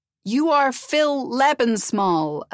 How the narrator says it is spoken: Elizabeth said loudly

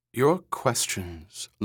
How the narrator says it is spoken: Luba Luft said in a crisp, formal voice

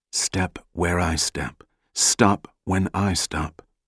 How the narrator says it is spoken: Jack whispered to Ephraim

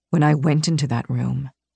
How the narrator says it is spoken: he murmured

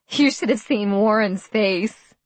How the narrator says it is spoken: Lisa giggled

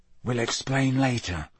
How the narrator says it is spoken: Harry muttered

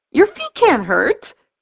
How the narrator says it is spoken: Danielle exclaims

